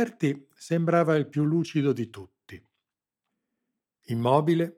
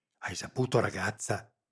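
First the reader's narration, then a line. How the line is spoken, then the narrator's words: Frightened whisper. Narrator (Italian): sussurrò Rita, sulle guance un pallore spaurito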